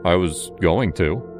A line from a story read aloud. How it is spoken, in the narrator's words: he said